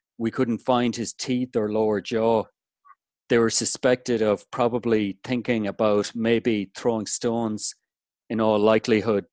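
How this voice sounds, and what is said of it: Irish accent. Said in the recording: “all poems are better with that accent ... I'm not putting it on either ... I can't speak any other way ... It's not an act ... do it in my Irish accent”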